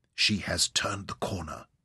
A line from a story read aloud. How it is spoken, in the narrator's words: Ryder whispered